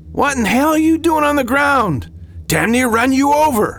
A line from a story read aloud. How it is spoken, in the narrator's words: the driver yelled